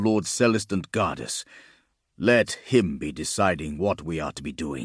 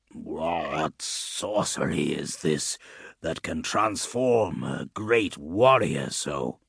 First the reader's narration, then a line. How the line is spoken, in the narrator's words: Gatrog croaked